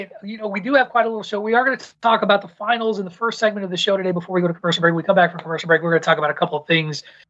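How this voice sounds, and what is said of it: Very fast, amped-up speech. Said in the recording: “I'm talking really fast. ... like on 1.5 speed.”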